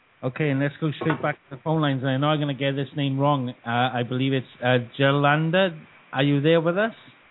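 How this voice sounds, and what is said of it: British accent. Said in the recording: “our stupid UK accent”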